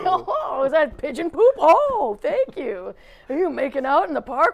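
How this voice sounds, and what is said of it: Prim, proper voice for a statue. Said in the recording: “when ... and I voice a statue, it kind of sounds like Mr. Belvedere without the accent ... you kind of feel like all statues are proper”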